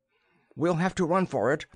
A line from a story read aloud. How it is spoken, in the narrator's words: Darlay cried